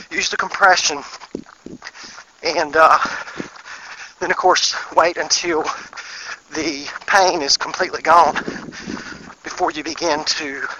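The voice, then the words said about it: Out of breath while running. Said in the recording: “I'm actually running too fast. That's why I'm out of breath”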